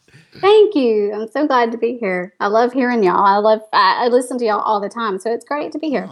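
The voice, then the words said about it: Cute Texas accent. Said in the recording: “she has quite literally the cutest Texas accent you have ever heard”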